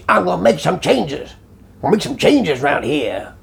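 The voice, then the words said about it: Poorly done put-on accent. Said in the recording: “I don't know why I did that accent or that voice. ... That's not very good, is it? It's not a very good accent to do. I've not done it very well.”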